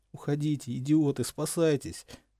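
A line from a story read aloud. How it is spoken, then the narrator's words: Groaning through teeth. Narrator (Russian): стонал он сквозь зубы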